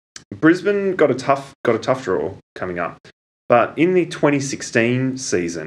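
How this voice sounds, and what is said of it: Usual voice. Nothing is said of it.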